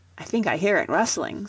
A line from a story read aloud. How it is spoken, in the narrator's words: said Helen